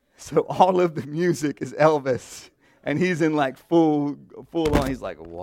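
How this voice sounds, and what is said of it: Usual voice. Nothing is said of it.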